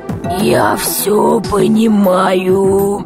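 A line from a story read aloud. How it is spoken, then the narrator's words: Rusty creaking voice. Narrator (Russian): Проскрипел космонавт, словно его голос заржавел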